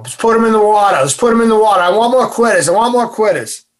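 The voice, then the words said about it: Deep South Boston accent. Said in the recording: “he had a deep South Boston accent”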